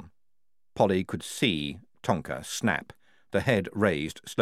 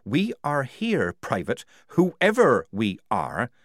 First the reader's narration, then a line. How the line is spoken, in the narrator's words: snapped Polly